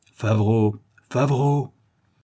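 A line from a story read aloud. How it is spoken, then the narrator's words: Passionate outburst. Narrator (French): s'écria Judex en un élan d'emportement magnifique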